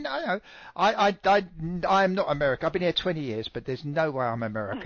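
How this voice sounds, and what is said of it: British accent. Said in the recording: “wish ... to talk like you. ... Well, I refuse to lose it. ... Everybody loves a British accent.”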